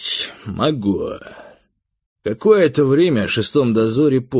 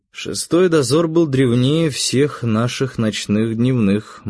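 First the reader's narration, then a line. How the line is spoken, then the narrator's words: Gloomy. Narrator (Russian): мрачно сказал я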